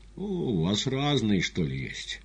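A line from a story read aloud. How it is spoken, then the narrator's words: Gloomy question. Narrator (Russian): мрачно спросил поэт, у которого папиросы кончились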